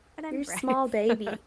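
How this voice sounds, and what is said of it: Baby voice. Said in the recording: “baby voice.”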